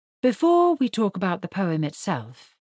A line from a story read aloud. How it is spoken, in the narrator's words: he said in a more even tone